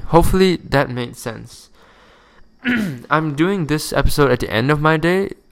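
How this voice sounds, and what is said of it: Sleepy, tired voice. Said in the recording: “You can probably tell my tone of voice that I'm really different ... So sorry if I sound a bit sleepy, because I actually am sleepy”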